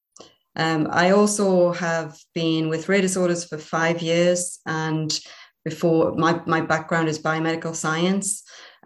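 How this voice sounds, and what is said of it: Geordie accent with hint of Irish. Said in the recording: “a Kiwi, Irish, Geordie, Singaporean with Gibraltar thrown in ... the accent is a Geordie accent with a hint of Irish”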